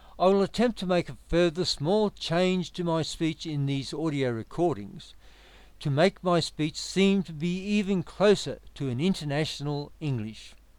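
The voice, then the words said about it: Educated Australian accent. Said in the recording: “I now speak with what is called an educated Australian accent, which is almost free of any accent at all.”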